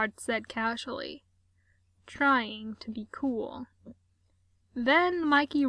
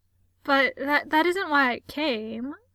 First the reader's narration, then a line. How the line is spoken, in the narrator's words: Gerard stammered